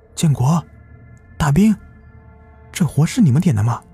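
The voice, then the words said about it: Quiet, faint whispered question. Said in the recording (Chinese): “小声的问了一句，声音虽然微弱，但不知为何却是格外的清晰”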